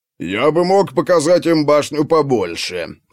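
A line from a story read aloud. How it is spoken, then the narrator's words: Grumbling. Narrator (Russian): раздалось ворчание Бьорни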